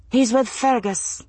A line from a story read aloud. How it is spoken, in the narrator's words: Massali answered calmly